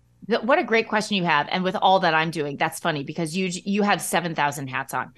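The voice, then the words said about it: Midwest accent with flat A. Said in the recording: “it's my accent. It's my Midwest flat A accent.”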